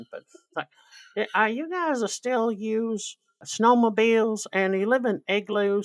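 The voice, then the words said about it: Put-on Montana American accent. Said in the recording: “this is my greatest Montana accent, by the way, whether it's accurate or not, I don't know. I kind of use that for a lot of American states that really don't have an accent”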